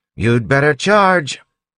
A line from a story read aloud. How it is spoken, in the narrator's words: yelled